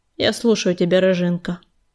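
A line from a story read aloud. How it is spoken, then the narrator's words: Dry, curt. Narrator (Russian): сухо сказал он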